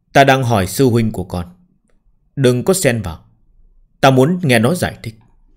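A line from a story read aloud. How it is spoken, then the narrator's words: Cold, steady voice. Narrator (Vietnamese): La Thu lạnh lùng, ngữ khí không chút rung động, vô cùng ổn định nói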